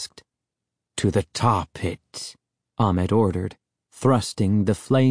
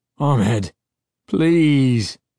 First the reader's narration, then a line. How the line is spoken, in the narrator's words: Uncle Ben cried in a whining, frightened tone I'd never heard from him before